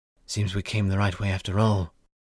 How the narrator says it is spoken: Kory whispered to Voslo

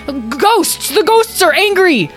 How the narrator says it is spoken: Without thinking, Tom yelled out again

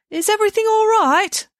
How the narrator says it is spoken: called out

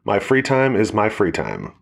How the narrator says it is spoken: Alex said

